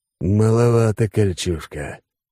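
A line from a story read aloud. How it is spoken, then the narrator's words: Hoarse wheeze. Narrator (Russian): прохрипел Алекс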